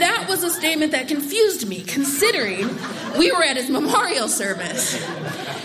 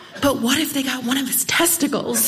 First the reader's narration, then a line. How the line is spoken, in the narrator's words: she leans in and whispers